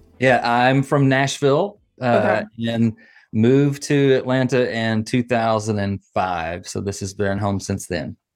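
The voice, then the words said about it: Southern US accent. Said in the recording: “you kind of have a Southern accent.”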